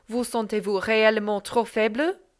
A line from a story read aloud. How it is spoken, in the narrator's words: said Madame sternly